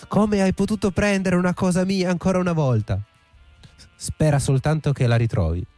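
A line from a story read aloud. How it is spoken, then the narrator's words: Yelled. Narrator (Italian): urlò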